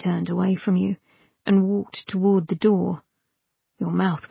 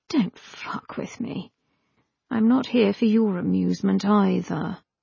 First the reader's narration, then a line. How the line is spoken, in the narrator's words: said gently